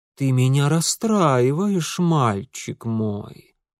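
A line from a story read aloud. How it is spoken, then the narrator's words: Drawled. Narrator (Russian): протянула княгиня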